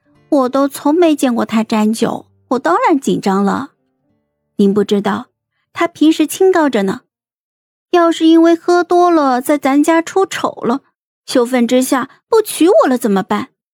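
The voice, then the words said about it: Speaking softly, in a low voice. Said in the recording (Chinese): “小声的道”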